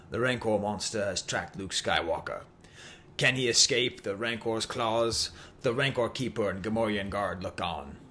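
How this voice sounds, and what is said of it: Attempted British accent slipping Australian. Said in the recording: “How do I say things with a British accent? ... It's Australian again.”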